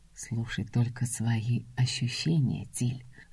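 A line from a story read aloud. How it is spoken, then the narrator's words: Velvety husky whisper. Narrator (Russian): бархатный шепот с легкой хрипотцой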